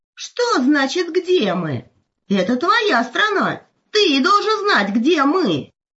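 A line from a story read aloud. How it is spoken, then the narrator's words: Indignant exclamation. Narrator (Russian): возмущенно воскликнул волк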